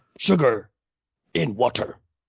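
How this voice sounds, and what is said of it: Brief impression of a film character. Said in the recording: “the guy in the Edgar suit, Vincent D'Onofrio ... my micro impression”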